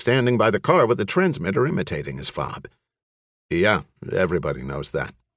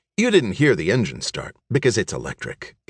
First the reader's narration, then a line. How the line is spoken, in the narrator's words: Gavin said in a professorial tone